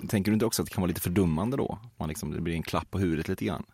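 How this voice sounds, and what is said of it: Regional Swedish dialect, not Stockholm. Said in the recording (Swedish): “med din dialekt och den är så charmig och mysig ... stockholmska är ju ingenting”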